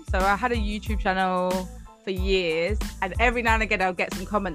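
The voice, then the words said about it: British English accent. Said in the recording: “do I have an accent to you? ... yours is like, it's like I hear in the movies ... I know fully well I've got an accent ... what an American hears is different to what a British person hears in terms of the accent”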